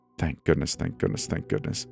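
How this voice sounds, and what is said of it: Panicky whisper. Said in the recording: “whispering in a panicky voice.”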